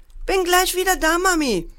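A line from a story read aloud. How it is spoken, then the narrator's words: Called out. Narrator (German): rief Paul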